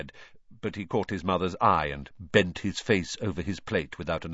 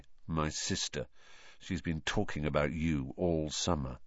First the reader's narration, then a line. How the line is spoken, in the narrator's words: said Ron in an undertone to Harry